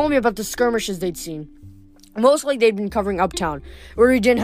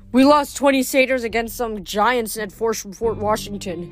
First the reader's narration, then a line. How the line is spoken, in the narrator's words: he said, his voice trembling